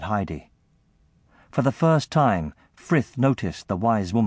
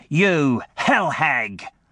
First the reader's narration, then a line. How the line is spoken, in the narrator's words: spat out